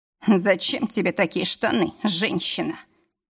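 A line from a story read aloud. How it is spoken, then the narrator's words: Boss moaning. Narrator (Russian): простонал босс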